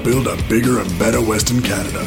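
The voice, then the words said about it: Put-on North American cowboy accent. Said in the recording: “Pretending to be a cowboy, pretending to be North American, putting his Australian accent through the floor ... you don't think like it's such a separation from how he talks ... He does a good job.”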